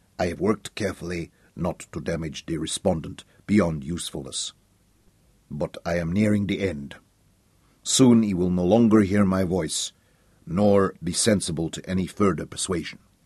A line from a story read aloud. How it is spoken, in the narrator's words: Slow John's expression did not change as he said softly